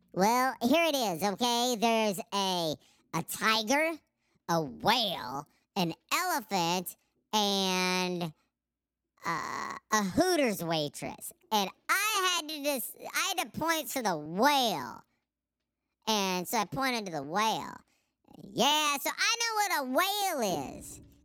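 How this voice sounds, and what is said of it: Imitates another person's voice. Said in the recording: “I can't do the impersonation I need to, so we're going to have someone else do it.”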